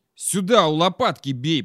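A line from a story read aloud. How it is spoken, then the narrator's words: Growled. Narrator (Russian): прорычал Васька Мент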